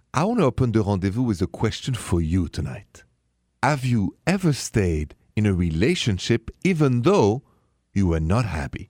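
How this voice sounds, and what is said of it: French accent. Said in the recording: “The accent, French, français, straight from Paris.”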